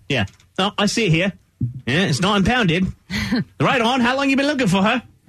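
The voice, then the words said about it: Put-on British accent. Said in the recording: “I like your accent. ... it's my British accent”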